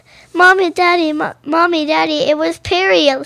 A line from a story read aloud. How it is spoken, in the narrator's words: cried Olivia